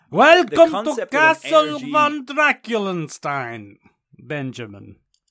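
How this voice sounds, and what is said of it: Dracula-style vampire voice impression. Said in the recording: “That was pretty solid. That was a pretty solid Christopher Lee 1967.”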